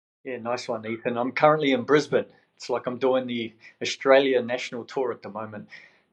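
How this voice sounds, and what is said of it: Slight New Zealand accent. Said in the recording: “I'm detecting a little bit of an accent. ... originally from New Zealand ... people still pick up the accent”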